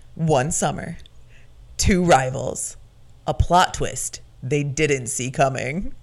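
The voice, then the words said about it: Dramatic movie-trailer announcer voice. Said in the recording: “It's my movie announcer voice.”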